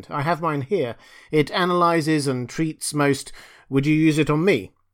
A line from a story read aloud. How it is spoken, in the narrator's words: Res broke in, his voice suddenly urgent